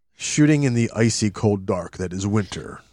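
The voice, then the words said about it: Deliberately deep dramatic voice. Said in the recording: “that sounds even better with your deep voice”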